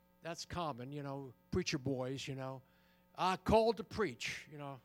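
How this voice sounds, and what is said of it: Put-on Southern accent. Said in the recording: “we're down south here, right? ... if I may use that accent. I'm from New Jersey”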